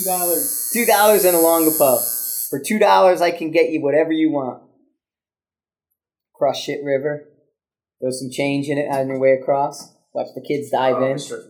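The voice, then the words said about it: East Coast American accent. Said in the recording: “I can't stand this accent. East Coast was like in my top two. ... that accent”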